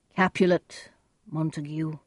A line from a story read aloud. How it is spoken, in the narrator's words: the prince said sadly